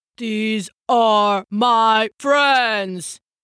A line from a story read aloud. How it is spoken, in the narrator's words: the half-giant roared